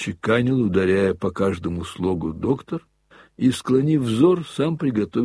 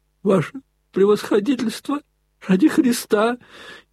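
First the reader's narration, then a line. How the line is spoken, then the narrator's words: Frightened plea. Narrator (Russian): испуганно остановил штабс-капитан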